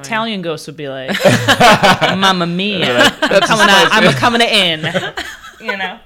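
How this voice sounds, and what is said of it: Exaggerated Italian ghost voice. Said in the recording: “It's my favorite impression that you've ever done. Italian ghost.”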